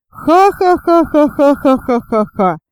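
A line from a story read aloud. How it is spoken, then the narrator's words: Laughing. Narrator (Russian): засмеялась Анна Егоровна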